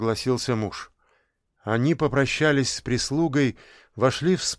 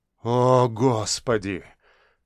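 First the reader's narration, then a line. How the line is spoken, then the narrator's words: Tragic sighing exhale. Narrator (Russian): Трагично выдохнул Павел Константинович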